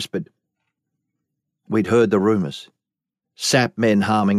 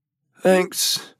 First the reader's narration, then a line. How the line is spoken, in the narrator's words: she grunted